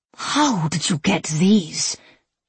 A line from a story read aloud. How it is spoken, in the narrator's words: She rasped